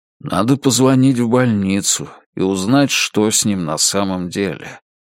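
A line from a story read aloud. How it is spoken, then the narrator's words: Soft. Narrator (Russian): мягко сказал он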